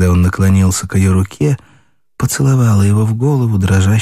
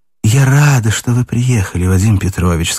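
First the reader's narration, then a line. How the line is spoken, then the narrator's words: Plain. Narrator (Russian): сказала она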